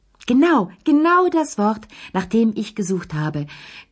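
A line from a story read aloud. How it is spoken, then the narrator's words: Beaming shriek. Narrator (German): kreischte Madame Pellou strahlend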